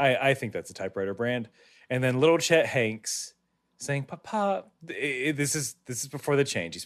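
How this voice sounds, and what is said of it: Usual voice. Nothing is said of it.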